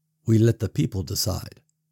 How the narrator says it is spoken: Paul said quietly

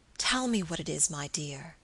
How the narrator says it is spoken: he whispered tenderly

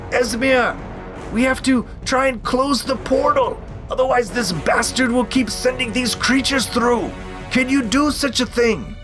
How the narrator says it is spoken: he yells out

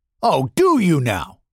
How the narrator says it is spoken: Benari snarled

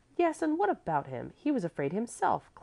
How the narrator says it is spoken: Clevy cried out excitedly, for the reproach had stung her

